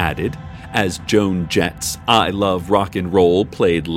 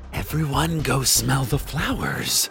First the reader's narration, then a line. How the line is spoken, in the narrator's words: they snarled, wistfully, in unison